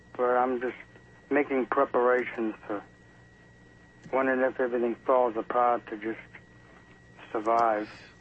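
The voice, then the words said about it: Northeastern US accent, Boston-sounding. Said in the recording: “you certainly don't have a Tennessee accent. You sound like you're from up east somewhere.”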